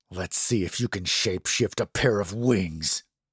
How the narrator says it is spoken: Jim said through gritted teeth

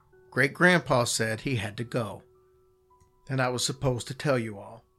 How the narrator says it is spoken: say in the calmest voice

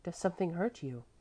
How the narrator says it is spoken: she said quietly

